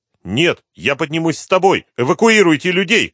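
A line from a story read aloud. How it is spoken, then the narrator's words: Shouting. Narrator (Russian): крикнула она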